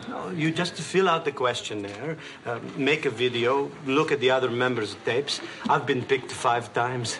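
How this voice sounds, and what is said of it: Speaks with a foreign accent. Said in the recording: “I think it's the accent.”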